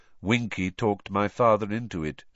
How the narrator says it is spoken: said Crouch, still in the same monotonous voice

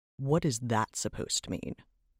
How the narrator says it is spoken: Trevok growled

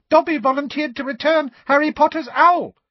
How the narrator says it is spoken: said the elf squeakily, with a look of positive adoration on his face

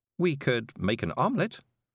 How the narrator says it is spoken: said Miss Level cheerfully

